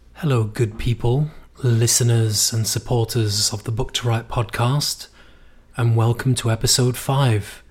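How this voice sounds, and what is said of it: Strained voice from inflamed throat. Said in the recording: “I'm sorry if I sound a little bit unusual today ... my throat is very inflamed, and in fact, my voice is a little bit dissipated”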